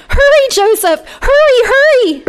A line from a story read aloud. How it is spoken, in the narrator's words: I hollered